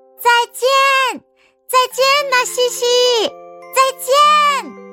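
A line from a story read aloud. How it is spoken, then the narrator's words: Loud shout. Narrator (Chinese): 我大声喊起来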